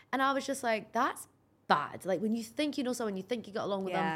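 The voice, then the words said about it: Scottish accent. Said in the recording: “That's my Scottish accent.”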